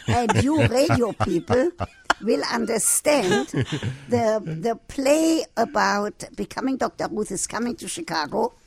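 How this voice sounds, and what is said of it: Speaks with a foreign accent. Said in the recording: “you have to take a speech therapist in order to lose your accent ... She had to take a speech therapist to learn my accent”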